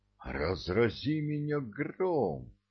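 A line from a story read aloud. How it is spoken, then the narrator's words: Astonished gasp. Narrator (Russian): изумленно выдохнул Маккаби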